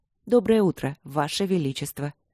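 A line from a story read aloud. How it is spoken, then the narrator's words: Formal professional tone. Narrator (Russian): Официальным и очень профессиональным тоном произнесла она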